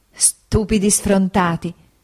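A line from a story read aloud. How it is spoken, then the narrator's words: Mother's laughing exclamation. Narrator (Italian): esclamò mia madre ridendo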